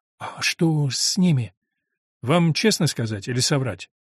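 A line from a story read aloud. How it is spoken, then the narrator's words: Uncertain. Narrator (Russian): неуверенно сказала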